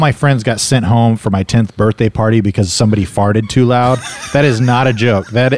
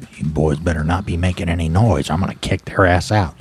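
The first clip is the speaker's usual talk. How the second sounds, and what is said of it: Imitates another person's voice. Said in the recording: “all my friends from then on would do an impression of ... my mom up to the door with like a glass”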